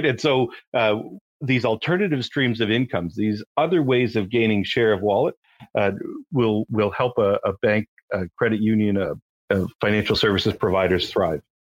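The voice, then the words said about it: Canadian accent. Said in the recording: “the audience can detect your uh, Canadian accent”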